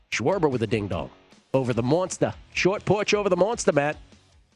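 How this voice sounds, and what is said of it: Put-on Boston accent. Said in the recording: “I just wanted to say it in a Boston accent.”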